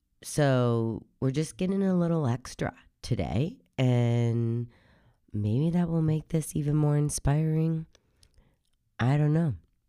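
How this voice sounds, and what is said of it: Hoarse, deep voice. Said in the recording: “I sound a little hoarse because I currently have a cold. So if I sound a little different, that is why ... My voice is typically already hoarse and deep”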